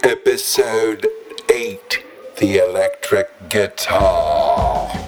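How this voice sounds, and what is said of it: Funny English accent. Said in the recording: “funny English accent guy”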